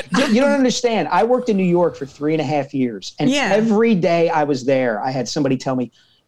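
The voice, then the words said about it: Strong Philadelphia accent. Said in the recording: “is everyone from Philadelphia, is their accent as strong as yours?”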